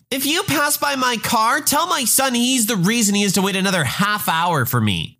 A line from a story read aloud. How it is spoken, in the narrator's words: she yells